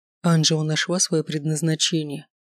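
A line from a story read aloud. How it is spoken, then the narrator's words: Very quiet speech. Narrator (Russian): сказал Оракул так тихо, что его могла услышать только она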